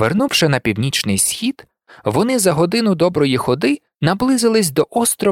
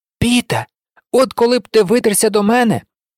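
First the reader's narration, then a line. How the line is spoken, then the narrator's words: Joyful shout. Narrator (Ukrainian): радісно закричав Ян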